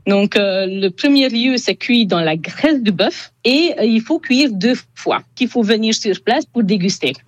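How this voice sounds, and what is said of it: Slight Hungarian accent in French. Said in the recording (French): “son petit accent,⟧ qui est hongroise”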